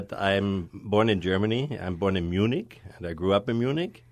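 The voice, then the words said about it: German accent. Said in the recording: “as you hear from my accent, from my Schwarzenegger-like accent”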